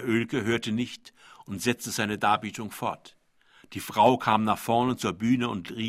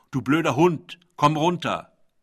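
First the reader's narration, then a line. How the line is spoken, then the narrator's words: Woman calling upward. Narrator (German): Eine Frau rief zur Bühne hoch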